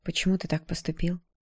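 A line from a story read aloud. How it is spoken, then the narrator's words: Quiet, suppressed nervousness. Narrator (Russian): спросила я тихо, стараясь скрыть волнение в голосе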